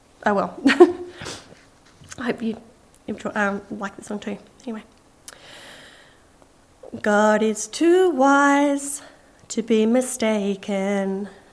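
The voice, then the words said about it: Emotional, choked-up voice. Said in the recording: “Please excuse my all emotional voice.”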